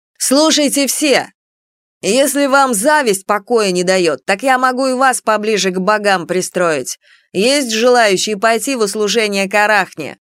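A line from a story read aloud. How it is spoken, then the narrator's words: Angry shouting to hall. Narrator (Russian): На всю аудиторию прокричала она, обводя студентов гневным взглядом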